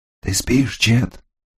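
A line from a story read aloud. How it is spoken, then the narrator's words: Barely audible whisper. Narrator (Russian): Его шепот был таким тихим, что его едва было слышно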